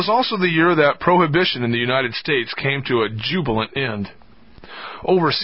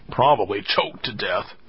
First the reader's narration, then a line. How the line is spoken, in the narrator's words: Samuel whispered